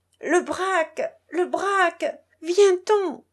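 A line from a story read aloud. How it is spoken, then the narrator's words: Regaining composure, exclaiming. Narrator (French): Cangibus reprit un peu son sang-froid, s'exclamant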